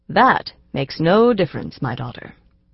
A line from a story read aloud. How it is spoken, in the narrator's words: he said gravely